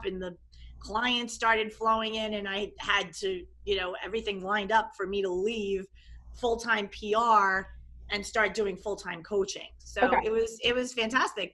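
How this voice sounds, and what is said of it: New York accent. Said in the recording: “I worked in New York City. I don't know if you can tell by the accent. ... I'm from New York. I'm a New York, New York metro area girl”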